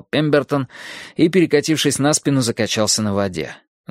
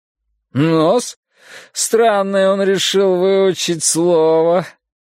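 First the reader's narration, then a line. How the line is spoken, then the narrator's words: Lazy drawl. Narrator (Russian): лениво протянул Пембертон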